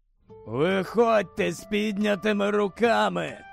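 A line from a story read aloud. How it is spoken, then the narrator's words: Hoarse voice. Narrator (Ukrainian): Пролунав хриплий голос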